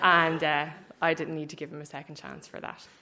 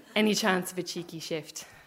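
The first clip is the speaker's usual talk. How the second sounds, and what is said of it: South Dublin accent. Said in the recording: “in that South Dublin accent that I loved to tease him about”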